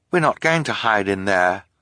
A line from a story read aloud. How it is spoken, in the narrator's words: Violet said